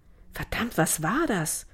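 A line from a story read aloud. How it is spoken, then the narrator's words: Gasping for breath. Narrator (German): Sie japste nach Luft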